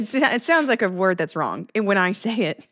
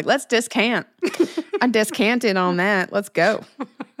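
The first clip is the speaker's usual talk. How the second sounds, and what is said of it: Exaggerated Texas accent. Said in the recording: “I'm mispronouncing it in a Texas accent”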